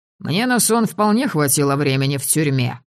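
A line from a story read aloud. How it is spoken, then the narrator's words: Wry snort. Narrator (Russian): хмыкнул Полынь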